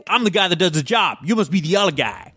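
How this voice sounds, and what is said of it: Poor put-on Boston accent. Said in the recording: “I'm trying not to do my favourite Boston accent. ... that was terrible.”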